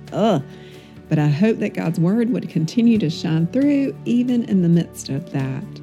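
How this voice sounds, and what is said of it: Hoarse, froggy voice. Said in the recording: “my voice is still a little bit froggy”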